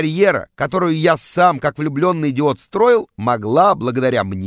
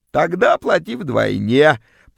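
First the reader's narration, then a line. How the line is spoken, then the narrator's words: Creaky grating voice. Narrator (Russian): проскрипела вымогательница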